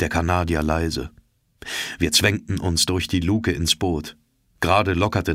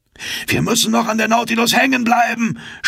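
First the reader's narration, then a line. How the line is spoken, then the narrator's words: Shouted. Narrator (German): schrie Ned Land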